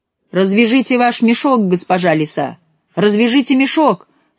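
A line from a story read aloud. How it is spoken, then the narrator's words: Shouting cat. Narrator (Russian): крикнул ей кот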